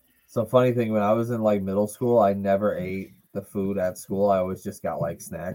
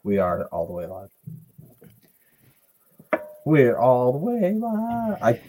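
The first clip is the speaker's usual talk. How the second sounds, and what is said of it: Voice cracking like a teenager. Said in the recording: “my voice is cracking like a fucking teenager”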